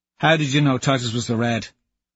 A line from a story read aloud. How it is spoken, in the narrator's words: Harmony asks quickly